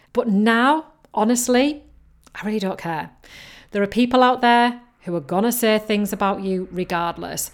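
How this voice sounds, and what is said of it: Mixed Yorkshire and Geordie accent. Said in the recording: “I've got a Yorkshire accent. And you can tell that from me speaking. And it is kind of a mixture between Yorkshire and Geordie”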